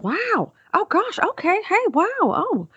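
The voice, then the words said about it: Jennifer Aniston impression, surprised tone. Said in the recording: “a decent, not great Jennifer Aniston ... she's surprised about everything ... that, like, shock factor”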